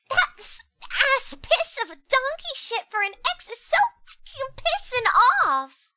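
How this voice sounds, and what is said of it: Anime-style character voice. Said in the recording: “the anime voice”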